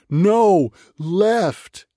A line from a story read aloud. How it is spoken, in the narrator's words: everyone else screamed